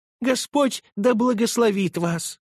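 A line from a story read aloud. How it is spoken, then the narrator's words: Exclaiming, holding back a sob. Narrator (Russian): воскликнула она, подавляя рыдание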